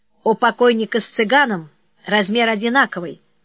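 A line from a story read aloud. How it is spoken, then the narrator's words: Calm, matter-of-fact. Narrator (Russian): спокойно ответила Любка, словно речь шла о чем-то обыденном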